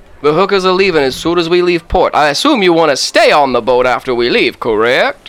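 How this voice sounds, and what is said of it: Exaggerated offensive character accent. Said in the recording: “I love how offensive your accent is... I chose a man named Louisiana”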